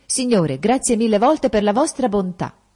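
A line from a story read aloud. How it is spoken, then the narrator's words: Exclaimed. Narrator (Italian): esclamò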